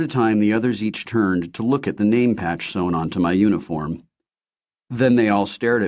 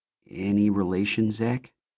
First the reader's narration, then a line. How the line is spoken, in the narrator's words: she asked quietly